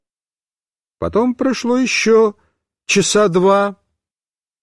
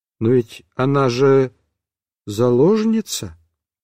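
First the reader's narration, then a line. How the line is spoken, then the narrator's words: Timid, questioning. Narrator (Russian): Ванька сказал так робко и с вопросом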